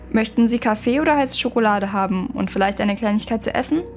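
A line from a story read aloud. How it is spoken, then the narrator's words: Plain question. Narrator (German): fragte er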